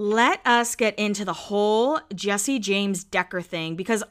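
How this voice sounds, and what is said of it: Usual voice. Nothing is said of it.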